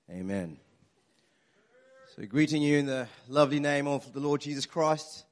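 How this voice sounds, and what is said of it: Attempted English accent, sounding American. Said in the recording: “was that American or? I've lost the English. ... I try to do English accents.”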